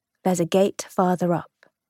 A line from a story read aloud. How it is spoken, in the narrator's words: Tom whispered